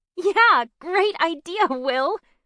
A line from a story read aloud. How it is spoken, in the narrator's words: said Bryn with a giggle